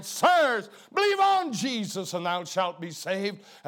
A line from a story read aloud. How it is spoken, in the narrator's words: Harper cried out in the night